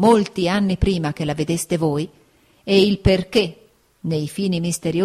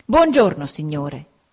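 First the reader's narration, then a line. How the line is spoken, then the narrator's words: Plain. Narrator (Italian): disse mia zia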